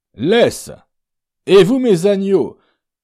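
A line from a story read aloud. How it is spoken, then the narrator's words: Shouted to horses. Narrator (French): cria-t-il aux chevaux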